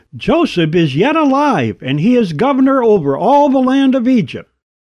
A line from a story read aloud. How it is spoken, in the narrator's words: one of them almost shouted